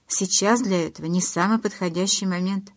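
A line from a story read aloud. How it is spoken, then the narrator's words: Plain. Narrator (Russian): сказал Эдвард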